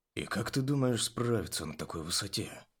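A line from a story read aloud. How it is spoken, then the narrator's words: Quiet question. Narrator (Russian): негромко поинтересовался Бронт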